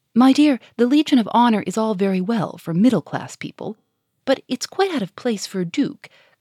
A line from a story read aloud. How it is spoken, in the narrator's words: cried Germain